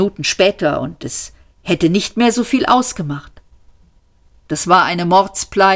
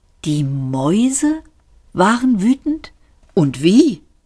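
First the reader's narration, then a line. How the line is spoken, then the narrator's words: Old man, gently. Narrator (German): sagte der alte Mann sanft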